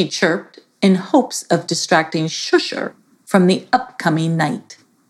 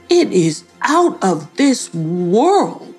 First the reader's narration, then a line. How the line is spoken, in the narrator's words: exclaimed Shusher